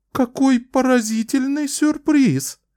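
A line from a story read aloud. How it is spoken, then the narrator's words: Queen exclaiming. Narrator (Russian): воскликнула королева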